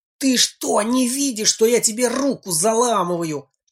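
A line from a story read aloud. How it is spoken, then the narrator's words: Hissed. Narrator (Russian): прошипел Женька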